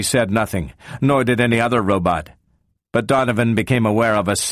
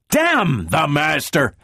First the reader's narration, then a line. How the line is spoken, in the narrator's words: Donovan spat